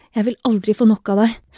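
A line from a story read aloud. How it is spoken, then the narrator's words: Panting voice. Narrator (Norwegian): sa han med pesende stemme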